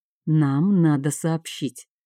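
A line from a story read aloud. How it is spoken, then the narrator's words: Quiet. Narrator (Russian): Тиан ... тихо сказал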